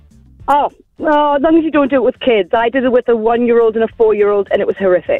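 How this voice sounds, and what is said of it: Northern English accent. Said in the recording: “you've got an English accent ... I'm from near Newcastle”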